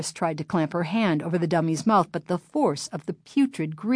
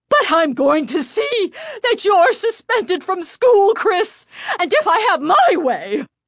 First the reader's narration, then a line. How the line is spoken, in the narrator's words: she sputtered